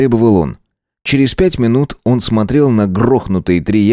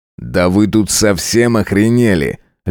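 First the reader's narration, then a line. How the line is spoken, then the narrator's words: Icy question. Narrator (Russian): ледяным тоном спросил Ноэль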